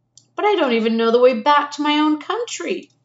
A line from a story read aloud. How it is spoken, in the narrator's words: pleaded Edmund